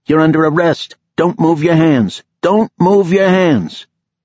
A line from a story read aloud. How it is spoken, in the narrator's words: Laurent shouted